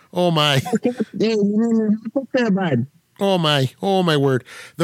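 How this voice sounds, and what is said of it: Put-on Minnesota accent. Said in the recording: “the Minnesota accent”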